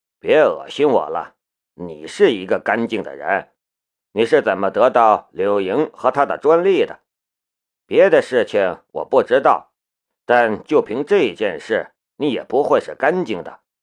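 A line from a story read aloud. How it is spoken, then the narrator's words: Calm, indifferent. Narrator (Chinese): 夏雷淡淡的道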